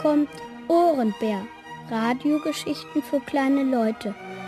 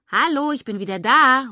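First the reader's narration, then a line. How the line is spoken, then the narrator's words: Called from the hallway. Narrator (German): ruft Irmchen aus dem Flur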